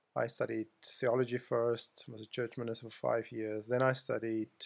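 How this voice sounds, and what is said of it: South African accent. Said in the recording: “I come from South Africa... You probably gathered that from my accent, which I can't hide from anybody.”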